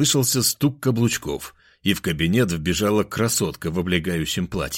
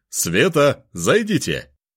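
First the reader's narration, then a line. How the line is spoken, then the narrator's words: Shouted. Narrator (Russian): прокричал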